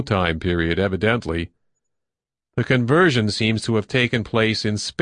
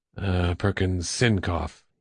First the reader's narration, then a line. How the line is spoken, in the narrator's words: he murmured absently